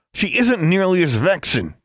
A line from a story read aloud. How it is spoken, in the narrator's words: he snapped